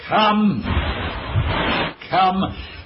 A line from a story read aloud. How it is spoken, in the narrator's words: he heard my brother George shouting from the house